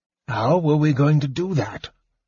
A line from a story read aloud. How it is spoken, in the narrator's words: Fizban asked eagerly